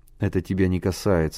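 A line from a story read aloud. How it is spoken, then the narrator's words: Dry reply. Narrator (Russian): сухо ответил Миша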